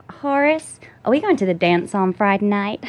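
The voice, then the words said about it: Put-on Southern Texan accent, Reese Witherspoon. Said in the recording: “How's your Southern accent? ... That's kind of Texan. ... You just nailed Reese Witherspoon in Walk the Line.”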